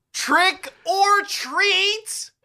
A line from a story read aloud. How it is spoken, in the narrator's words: You shriek